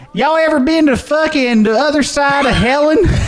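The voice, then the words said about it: Southern drawl, imitates another person's voice. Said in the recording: “whenever I just do, like, Larry the Cable Guy ... that was actually really good ... That was quality.”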